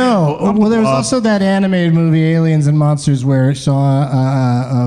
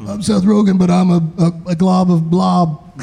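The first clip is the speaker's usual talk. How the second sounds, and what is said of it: Imitates another person's voice. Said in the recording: “I don't do a good Seth Rogen impression.”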